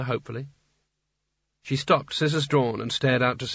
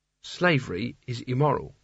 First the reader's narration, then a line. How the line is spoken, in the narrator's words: said Kanina firmly